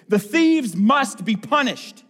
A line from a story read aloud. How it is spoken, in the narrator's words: he cried